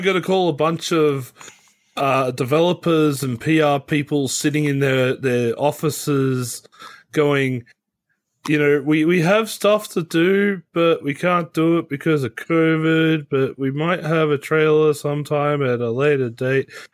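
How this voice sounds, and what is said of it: Flat, monotone delivery. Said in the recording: “my voice is so flat and monotone”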